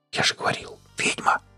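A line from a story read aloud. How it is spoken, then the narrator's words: Whisper. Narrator (Russian): Гарик шепнул оторопевшему бармену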